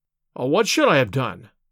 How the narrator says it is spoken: I cried, with some heat

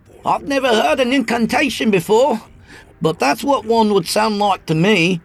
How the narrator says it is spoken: I yelled, trying to be heard over the triad of dark voices

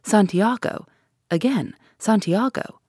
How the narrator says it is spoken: in unison, the magistrate and the commissary exclaimed

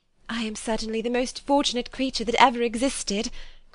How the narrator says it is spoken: cried Jane

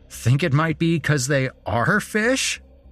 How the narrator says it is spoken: Chris laughed

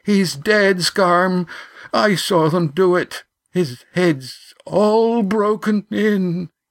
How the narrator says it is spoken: Yan sobbed

